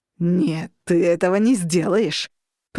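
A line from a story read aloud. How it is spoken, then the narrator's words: Growled. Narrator (Russian): прорычал Костя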